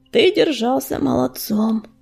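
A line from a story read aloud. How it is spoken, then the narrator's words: Grumbling. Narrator (Russian): проворчал Огнезвезд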